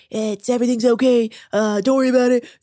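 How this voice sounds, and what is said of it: Weak Donald Trump impression. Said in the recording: “doing an impression of you gotta Trump ... I can't do a very good Trump impression”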